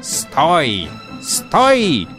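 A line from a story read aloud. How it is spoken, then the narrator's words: Robbers shouting. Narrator (Russian): кричали разбойники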